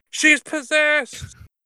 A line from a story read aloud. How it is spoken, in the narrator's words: yelled out